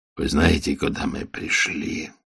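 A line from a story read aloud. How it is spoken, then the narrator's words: Hoarse question. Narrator (Russian): хрипло спросил владыка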